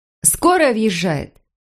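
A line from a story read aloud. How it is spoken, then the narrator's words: Shout from the corridor. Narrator (Russian): крикнула из коридора медсестра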